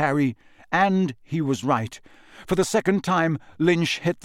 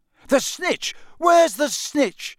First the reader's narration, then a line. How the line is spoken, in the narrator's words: bellowed Charlie along the row